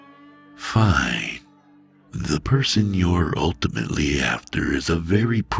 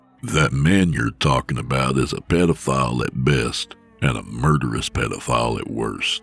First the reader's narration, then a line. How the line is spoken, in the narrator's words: Nick said flatly